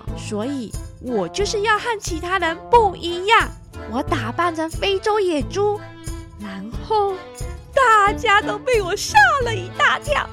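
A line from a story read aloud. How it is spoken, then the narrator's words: Loud shout. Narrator (Chinese): 奥利维大叫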